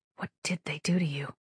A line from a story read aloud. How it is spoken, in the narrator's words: She whispered